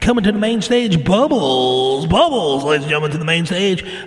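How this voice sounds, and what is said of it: Strip club DJ announcer voice. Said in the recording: “you do the stripper DJ. "Hey, coming to the main stage." Wait, I'll do the voice.”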